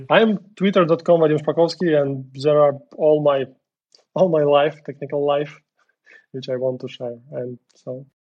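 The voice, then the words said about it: Non-native English accent. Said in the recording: “I'm sorry for my English speaking accent”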